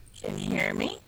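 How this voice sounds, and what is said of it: Distorted robotic-sounding voice. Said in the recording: “Sounds like robot voice.”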